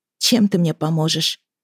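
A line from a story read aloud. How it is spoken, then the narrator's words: Sighing. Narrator (Russian): вздохнула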